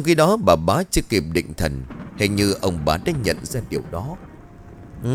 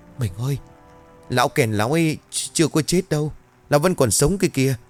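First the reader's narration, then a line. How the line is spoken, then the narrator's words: Frightened, trembling question. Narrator (Vietnamese): Bà bá mặt mày tái mét run rẩy hỏi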